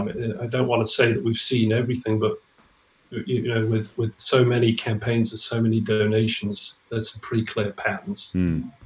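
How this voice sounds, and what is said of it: British accent with American-style flapped T's. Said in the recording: “you're a Brit, although I can hear some Americanisms creeping into your accent there... sort of rounding off the T's into a D sometimes”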